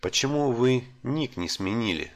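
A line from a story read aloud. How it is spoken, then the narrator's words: Plain. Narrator (Russian): спросил я старика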